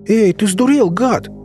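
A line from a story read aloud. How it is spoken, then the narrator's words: Panicked captive yelling. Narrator (Russian): заорал сразу растерявший всю спесь пленник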